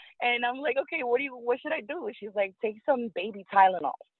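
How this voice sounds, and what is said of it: Usual voice. Nothing is said of it.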